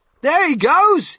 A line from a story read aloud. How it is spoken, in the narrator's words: somebody shouted